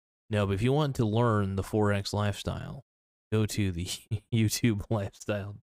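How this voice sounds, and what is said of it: Usual voice. Nothing is said of it.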